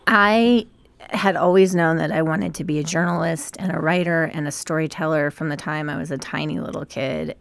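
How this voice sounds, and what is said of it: Slightly gravelly, hoarse voice. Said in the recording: “My voice is a little bit gravelly thanks to the birch pollen, go allergies.”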